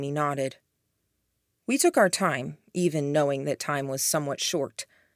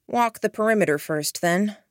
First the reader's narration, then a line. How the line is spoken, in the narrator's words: asked